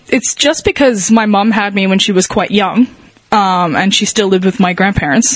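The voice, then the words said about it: Mixed Australian-American accent. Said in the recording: “my natural voice is, like, half Australian, half American”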